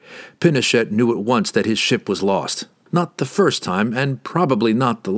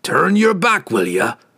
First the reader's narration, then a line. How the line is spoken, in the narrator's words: Brunner grunted